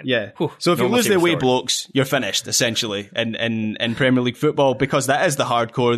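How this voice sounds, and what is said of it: Scottish accent. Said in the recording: “I don't think I've ever heard you not have a Scottish accent.”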